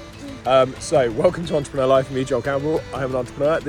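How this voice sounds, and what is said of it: Usual voice. Nothing is said of it.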